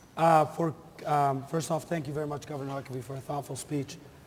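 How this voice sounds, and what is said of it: Impaired, unwell-sounding voice. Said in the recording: “Excuse my voice.”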